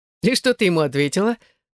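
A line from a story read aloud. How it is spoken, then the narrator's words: Laughing, unsure. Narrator (Russian): засмеялся в ответ, не зная, верить ей или нет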